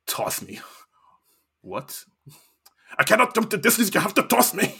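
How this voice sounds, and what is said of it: Impression of Gimli's voice. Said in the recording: “Gimli does a little peek, like ... That impression was full.”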